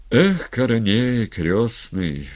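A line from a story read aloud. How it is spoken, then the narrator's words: Sighing. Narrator (Russian): вздохнул Степан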